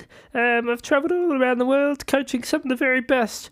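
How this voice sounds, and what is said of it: Mixed New Zealand and British accent. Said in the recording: “I'm from the Zeal, as we call it, New Zealand. I grew up in Wellington, but I also have my British citizenship, so that's why the accent is a bit varied.”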